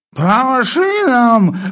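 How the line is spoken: Sudden sleeping roar. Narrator (Russian): взревел вдруг полковник, не просыпаясь

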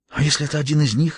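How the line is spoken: Breathless whisper. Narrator (Russian): едва дыша прошептала она

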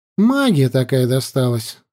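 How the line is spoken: Sighing. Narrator (Russian): вздохнул я

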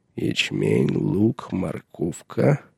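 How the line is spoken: Mutter. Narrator (Russian): пробормотал он

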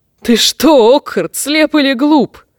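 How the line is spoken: Chuckling. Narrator (Russian): хохотнул темная звезда

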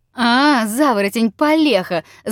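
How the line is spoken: Sudden wild yell. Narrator (Russian): завопил вдруг обалдуй

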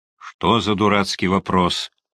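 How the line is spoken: Angry mutter. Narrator (Russian): сердито буркнул Семен Александрович

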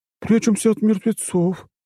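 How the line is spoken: Babbling woman. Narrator (Russian): пролепетала женщина

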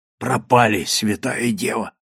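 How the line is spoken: Frightened whisper. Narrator (Russian): прошептал калабрийский матрос

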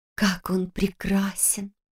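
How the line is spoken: Whispered. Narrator (Russian): шепнула Лиз

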